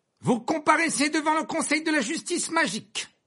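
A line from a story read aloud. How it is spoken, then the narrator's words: Loud declaration. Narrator (French): déclara-t-il d'une voix forte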